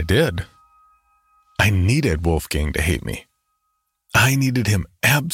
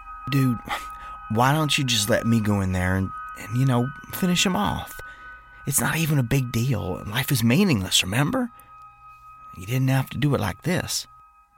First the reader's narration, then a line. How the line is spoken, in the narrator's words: Jerry said softly